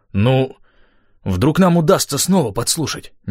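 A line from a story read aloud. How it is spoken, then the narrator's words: Uncertain suggestion. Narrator (Russian): неуверенно предположил он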